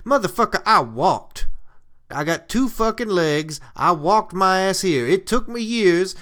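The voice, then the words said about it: Character voice with weird Southern accent. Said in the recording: “I got a strange fucking accent. Everybody always tells me I got a weird accent. ... my Southern ass”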